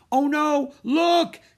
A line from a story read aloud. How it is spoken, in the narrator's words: shrieked Annie